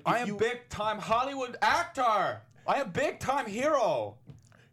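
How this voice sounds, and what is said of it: Put-on Eastern European accent. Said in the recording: “You've got like a Eastern European accent”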